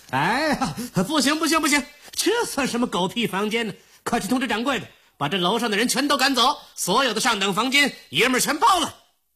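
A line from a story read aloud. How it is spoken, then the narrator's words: Loud, indignant shouting. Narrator (Chinese): 张立人 大声嚷起来了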